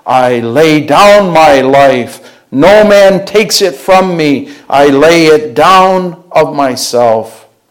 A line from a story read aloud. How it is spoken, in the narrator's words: It proclaims loudly